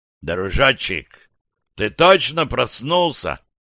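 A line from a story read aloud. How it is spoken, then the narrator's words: No. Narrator (Russian): резко обернулся к нему Кэп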